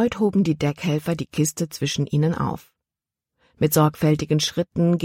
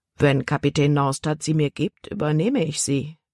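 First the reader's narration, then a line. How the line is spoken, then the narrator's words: Plain. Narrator (German): antwortete er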